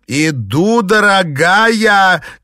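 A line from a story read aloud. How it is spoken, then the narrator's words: Shout. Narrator (Russian): крикнула она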